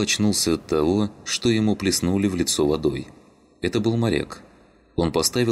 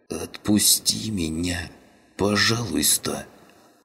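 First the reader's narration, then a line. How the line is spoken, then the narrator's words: Hoarse wheeze. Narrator (Russian): просипел каннибал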